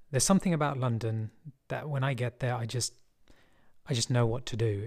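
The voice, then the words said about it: London English accent. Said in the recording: “being from London, you might have guessed from the accent”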